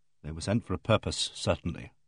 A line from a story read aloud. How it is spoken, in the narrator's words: said grimly